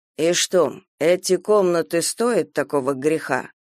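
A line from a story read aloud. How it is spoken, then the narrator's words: Calm question. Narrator (Russian): спокойно спросил Сайлас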